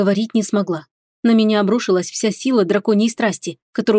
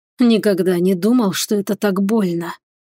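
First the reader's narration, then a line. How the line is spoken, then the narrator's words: Hoarse whisper. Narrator (Russian): неожиданно хрипло прошептал лорд Радкар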